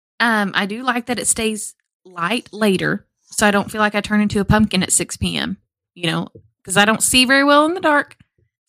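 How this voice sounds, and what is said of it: Stronger Southern US accent. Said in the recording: “I think you just showed a little bit more southern accent there”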